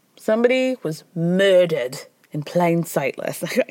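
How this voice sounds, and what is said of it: Poor attempt at Scottish accent. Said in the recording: “I can't do a Scottish accent. ... That was bad. ... Even for me, that was bad.”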